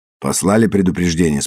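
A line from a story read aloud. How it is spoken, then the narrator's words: Plain. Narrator (Russian): спросил Уайт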